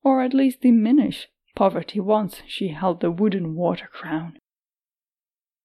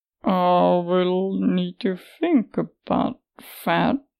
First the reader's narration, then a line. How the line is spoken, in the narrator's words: Farang said slowly